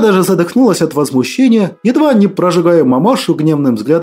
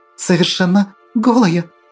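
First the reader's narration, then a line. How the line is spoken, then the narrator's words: Breathless exhale. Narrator (Russian): Наконец-то выдохнула она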